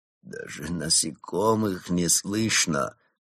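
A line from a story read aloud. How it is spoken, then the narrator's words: Moaning. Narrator (Russian): простонал Крот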